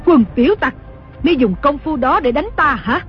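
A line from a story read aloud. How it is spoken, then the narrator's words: Furious scolding shout. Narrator (Vietnamese): Đồng mổ cả giận quát mắng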